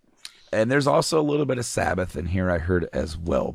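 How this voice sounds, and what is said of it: Hoarse, fading voice. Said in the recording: “as I'm losing my voice”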